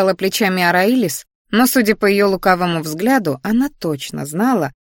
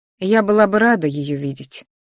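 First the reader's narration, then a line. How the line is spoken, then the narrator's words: Sighing. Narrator (Russian): вздохнула я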